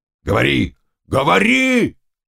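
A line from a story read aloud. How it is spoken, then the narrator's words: Shouting. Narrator (Russian): кричал Заглоба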